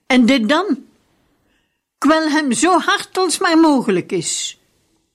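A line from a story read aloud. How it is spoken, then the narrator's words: Grandfather calling out. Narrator (Dutch): grootvader riep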